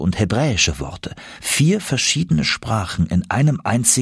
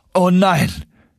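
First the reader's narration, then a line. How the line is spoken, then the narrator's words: Calling out. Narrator (German): rief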